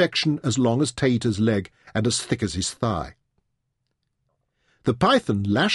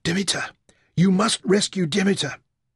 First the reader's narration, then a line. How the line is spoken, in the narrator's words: Tater panted